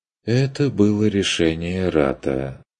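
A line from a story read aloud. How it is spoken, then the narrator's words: Sighing. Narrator (Russian): вздохнул Штюбинг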